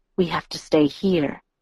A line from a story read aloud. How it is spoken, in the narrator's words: Edward murmured